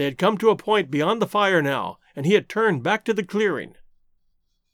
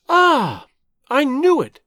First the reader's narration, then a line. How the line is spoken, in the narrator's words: she exclaimed